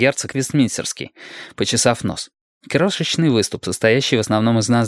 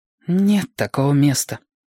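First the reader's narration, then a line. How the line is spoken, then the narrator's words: Sighing. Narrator (Russian): вздохнул Никт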